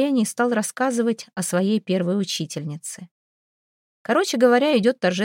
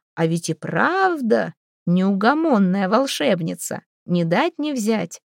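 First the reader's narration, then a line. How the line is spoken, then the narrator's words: Relieved hearty laughter. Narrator (Russian): Анна, наконец, расслабилась и расхохоталась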